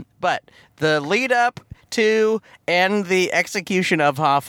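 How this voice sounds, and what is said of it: Usual voice. Nothing is said of it.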